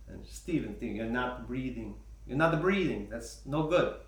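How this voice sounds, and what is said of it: Imitated strong Polish accent. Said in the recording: “she's got a nice, a strong Polish accent.”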